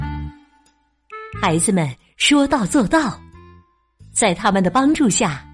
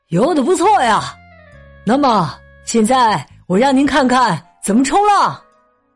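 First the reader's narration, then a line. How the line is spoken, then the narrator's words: Loud. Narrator (Chinese): 萨姆大声说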